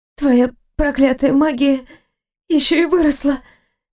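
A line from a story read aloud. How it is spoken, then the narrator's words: Breathless slurred exhale. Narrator (Russian): Едва шевеля языком, выдохнула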